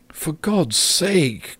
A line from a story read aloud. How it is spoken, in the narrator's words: cried the mother, nearly in tears